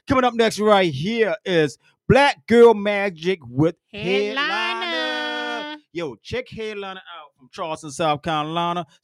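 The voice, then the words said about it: Speaks with a slight accent. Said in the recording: “Yes, I have a little accent.”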